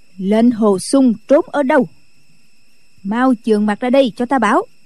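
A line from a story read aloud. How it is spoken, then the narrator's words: Loud stern shout. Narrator (Vietnamese): Định Vật sư thái lớn tiếng quát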